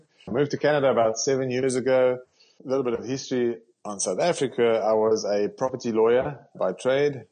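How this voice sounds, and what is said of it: South African accent. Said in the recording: “As you might or might not be able to pick up on my accent, I'm a South African.”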